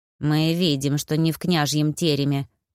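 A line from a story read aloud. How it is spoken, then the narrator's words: Grumbling. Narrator (Russian): проворчала Оксана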